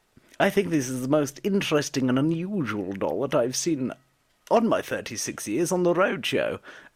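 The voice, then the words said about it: Put-on Antiques Roadshow presenter accent. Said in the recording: “I should put the accent. It's Antiques Roadshow, isn't it?”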